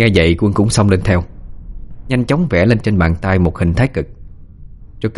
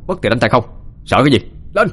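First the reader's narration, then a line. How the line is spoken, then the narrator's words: Fearless shout. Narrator (Vietnamese): Đông không sợ mà còn quát lên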